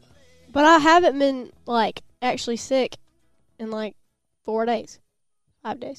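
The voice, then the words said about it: Voice sounds slightly off. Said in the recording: “You still sound a little... I sound weird... I just sound weird... my voice doesn't sound the same anymore”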